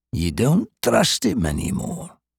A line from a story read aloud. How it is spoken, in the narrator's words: Arta said quietly